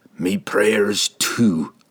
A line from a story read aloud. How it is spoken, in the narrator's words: he whispered